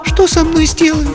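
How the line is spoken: Thin-voiced question. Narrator (Russian): спросила она, тонким голосом, несмотря на свою решимость

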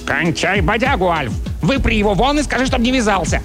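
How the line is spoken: Bark. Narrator (Russian): Чарли рявкнул

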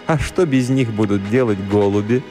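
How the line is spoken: Laughing. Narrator (Russian): Она рассмеялась и добавила

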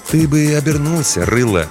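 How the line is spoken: Gentle advice. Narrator (Russian): мягко посоветовал детине смотритель

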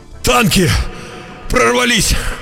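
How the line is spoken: Breathless, just ran in. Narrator (Russian): выдохнул вбежавший

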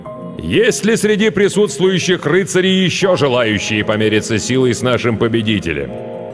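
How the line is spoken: Shouting king. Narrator (Russian): король крикнул

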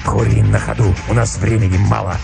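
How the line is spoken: Curt hoarse reply. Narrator (Russian): ответил волк отрывисто и хрипло

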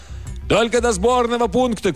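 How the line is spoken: Shouted reply. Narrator (Russian): крикнул в ответ профессор

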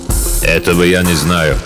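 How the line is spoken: Icy tone. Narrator (Russian): ледяным тоном ответил лесной маг

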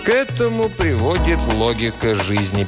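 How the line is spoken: Sad answer. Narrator (Russian): печально ответил тиран

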